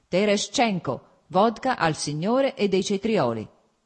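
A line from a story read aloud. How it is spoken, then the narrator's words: Self-satisfied shout. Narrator (Italian): gridò, evidentemente compiaciuto ad ascoltare la propria voce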